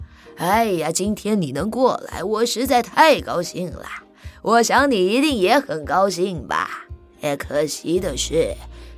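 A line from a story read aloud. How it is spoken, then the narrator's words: Smiling, cheerful. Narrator (Chinese): 金老爷笑眯眯地说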